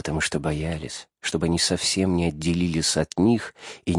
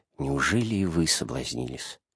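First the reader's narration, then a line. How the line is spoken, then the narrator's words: Meek, gentle. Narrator (Russian): не с гневом, но с кротостью, и так мягко говорят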